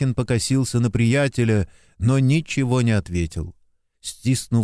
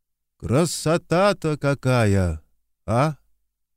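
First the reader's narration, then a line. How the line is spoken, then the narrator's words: Thoughtful, admiring. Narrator (Russian): Любуясь помолодевшим после ночного дождя лесом, Стрельцов задумчиво сказал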